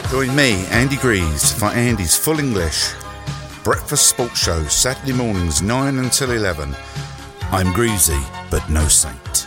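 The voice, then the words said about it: London accent. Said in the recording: “London accent”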